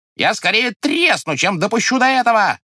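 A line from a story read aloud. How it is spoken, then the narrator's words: Woman shouting. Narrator (Russian): кричала сожительница Солопия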